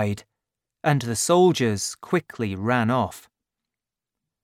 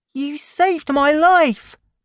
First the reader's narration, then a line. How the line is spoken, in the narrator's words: cried the boy, who was called Little Gavroche